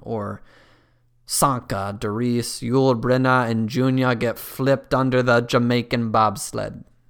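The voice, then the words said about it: Weak attempt at Jamaican accent. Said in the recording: “That's unfortunately my best Jamaican accent.”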